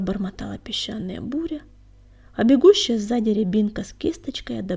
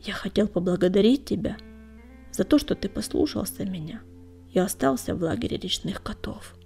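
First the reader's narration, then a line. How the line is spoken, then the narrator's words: Quiet. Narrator (Russian): тихо сказал он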